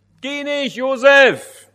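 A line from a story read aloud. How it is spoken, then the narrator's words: Called out. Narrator (German): rief Wally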